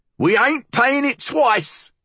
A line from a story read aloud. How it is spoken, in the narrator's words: she snapped